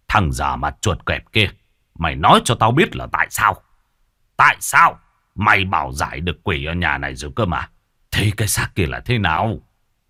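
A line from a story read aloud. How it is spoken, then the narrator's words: Gruff, almost shouting. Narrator (Vietnamese): Lý Hào giọng cồng cọc, nói như quát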